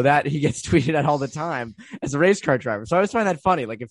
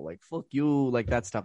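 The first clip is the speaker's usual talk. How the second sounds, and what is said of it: Put-on Russian accent. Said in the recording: “That was a beautiful, ... like, Russian accent. You know that was right on.”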